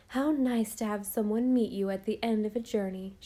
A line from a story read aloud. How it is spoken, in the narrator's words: she cried